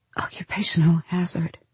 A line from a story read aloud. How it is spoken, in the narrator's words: she whispers, forcing her lips into a semblance of a smile